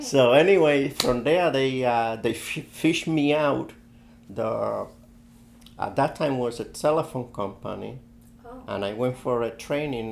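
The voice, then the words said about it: Puerto Rican accent in English. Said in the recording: “the only thing I couldn't lose was my accent. That's the reason I still have my accent”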